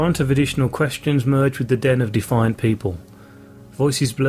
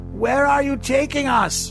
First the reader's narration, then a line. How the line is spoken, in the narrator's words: shouted a woman